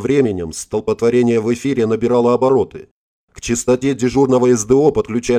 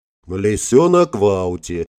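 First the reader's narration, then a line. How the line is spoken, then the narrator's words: Short laugh. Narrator (Russian): хохотнул Гельмут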